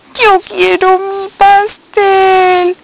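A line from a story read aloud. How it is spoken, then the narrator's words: Sobbing. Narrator (Spanish): sollozaba Estela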